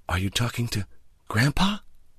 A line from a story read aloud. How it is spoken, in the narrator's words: in a hushed voice